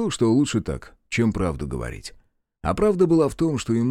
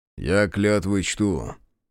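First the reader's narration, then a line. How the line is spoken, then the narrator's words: Grim, curt. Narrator (Russian): мрачно отрезал он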